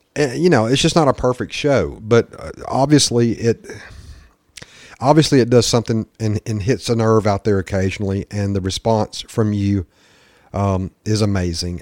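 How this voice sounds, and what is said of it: Southern US accent. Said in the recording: “My southern redneck accent certainly comes out.”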